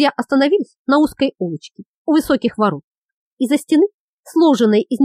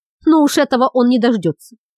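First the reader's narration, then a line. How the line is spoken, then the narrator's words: Exclaimed. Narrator (Russian): воскликнул Лукус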